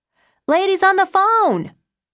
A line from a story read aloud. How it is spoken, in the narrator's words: he yelled